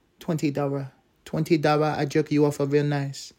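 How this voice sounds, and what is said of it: Put-on bad Asian accent. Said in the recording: “Bad Asian Prostitute Accent ... I like that voice”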